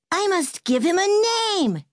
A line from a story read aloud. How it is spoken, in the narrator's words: cried